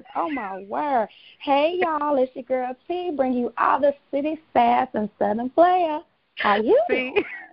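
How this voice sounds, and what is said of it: Strong Southern twang. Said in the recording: “this Southern twang is just way too much for me”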